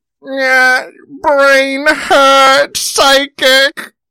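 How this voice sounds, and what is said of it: Imitated voice of Charles. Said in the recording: “let me see if I can do the Charles voice ... You nailed it.”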